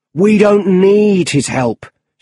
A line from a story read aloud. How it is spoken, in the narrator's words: shouted his boss